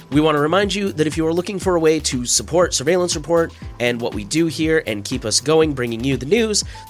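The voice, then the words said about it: Scratchy, congested voice. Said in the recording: “I think I am recovering from a little bit of a cold or something myself, so I apologize if my voice is a little scratchy or weird. My nose is kind of stuffy.”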